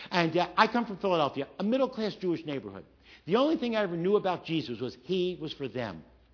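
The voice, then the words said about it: Slight Philadelphia accent. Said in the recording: “I come from Philadelphia. I don't know if you picked up the accent, but I have a little accent.”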